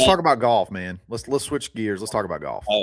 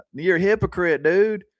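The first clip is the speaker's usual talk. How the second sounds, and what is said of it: Impression of Alabama fan caller. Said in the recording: “you sound a lot like him, honestly. ... That's a pretty good impression,”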